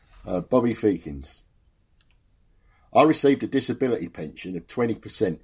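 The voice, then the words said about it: Put-on London accent. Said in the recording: “I'm expecting a good London accent from you, but not too silly”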